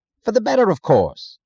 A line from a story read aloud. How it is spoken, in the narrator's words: he answered impatiently, as if it were irrelevant